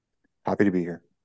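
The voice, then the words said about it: Flat, unenthusiastic delivery. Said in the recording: “You sound real fucking excited.”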